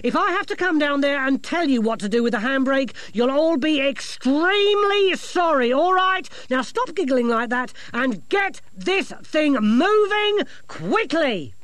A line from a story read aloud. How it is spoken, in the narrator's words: she snapped